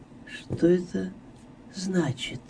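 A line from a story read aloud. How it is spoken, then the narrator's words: Involuntary whisper. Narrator (Russian): прошептала невольно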